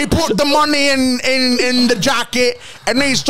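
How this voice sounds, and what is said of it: Usual voice. Nothing is said of it.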